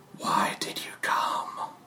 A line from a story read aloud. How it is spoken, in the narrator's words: the whisper say